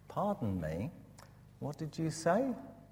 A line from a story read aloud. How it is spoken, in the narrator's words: Westcott by surprise, and he said in his kindly way